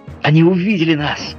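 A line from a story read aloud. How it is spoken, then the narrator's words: Exclamation. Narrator (Russian): воскликнул Гленарван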